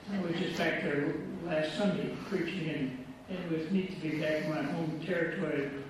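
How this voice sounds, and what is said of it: Michigan accent. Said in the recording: “I'm from Michigan. That's where I get this weird accent.”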